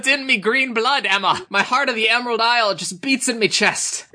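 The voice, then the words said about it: Put-on Irish accent. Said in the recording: “my Irish accent's so good”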